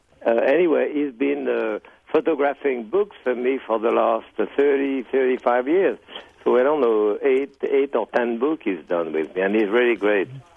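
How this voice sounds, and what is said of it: New England Yankee drawl. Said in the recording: “I'm sure you can recognize my Yankee drawl there.”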